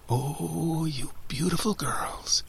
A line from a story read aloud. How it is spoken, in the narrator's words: whispered